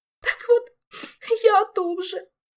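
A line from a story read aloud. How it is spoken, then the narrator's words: Openly sobbing. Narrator (Russian): уже откровенно всхлипнула Ольга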